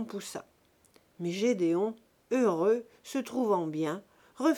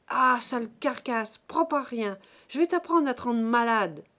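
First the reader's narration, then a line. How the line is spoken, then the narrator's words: Furious yelling. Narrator (French): hurla Buteau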